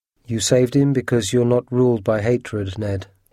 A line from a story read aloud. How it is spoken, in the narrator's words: Conseil said